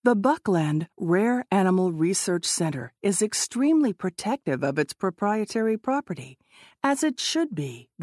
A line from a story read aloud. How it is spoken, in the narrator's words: the man said